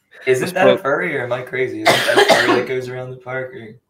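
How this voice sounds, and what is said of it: Regional accent, ferry sounds like furry. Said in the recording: “your accent makes it sound like you're saying furry.”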